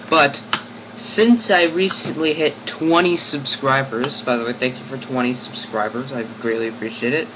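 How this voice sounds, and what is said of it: Sick, altered-sounding voice. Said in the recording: “my voice sounds a little different, and it's because I'm sick. Right now, I'm a little sick.”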